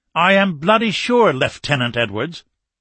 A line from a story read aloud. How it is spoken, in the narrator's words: Nichols answered testily